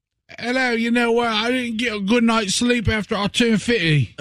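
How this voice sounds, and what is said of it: Put-on Geordie-like British accent. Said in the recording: “What accent are you doing? Where you from? You're a Geordie?”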